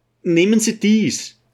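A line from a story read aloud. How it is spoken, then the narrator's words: Breathless call. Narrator (German): rief Bibonski, ganz außer Atem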